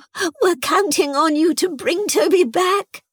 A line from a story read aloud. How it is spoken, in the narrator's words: Chrissy added, tearfully